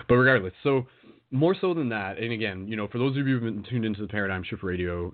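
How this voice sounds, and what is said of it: Slightly raspy voice. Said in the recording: “My throat is still a little bit raspy, getting over a cold from a couple weeks ago”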